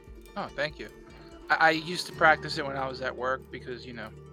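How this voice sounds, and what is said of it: Usual voice. Nothing is said of it.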